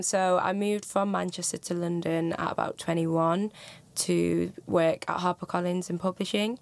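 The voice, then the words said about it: Northern English Manchester accent. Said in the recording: “I'm originally from Manchester, so there's Northern accents”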